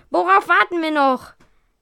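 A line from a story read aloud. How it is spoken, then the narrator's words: Panicked shout. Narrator (German): rief Bob panisch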